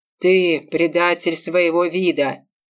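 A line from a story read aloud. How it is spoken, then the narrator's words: Growling. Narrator (Russian): зарычал на меня альфа-хозяин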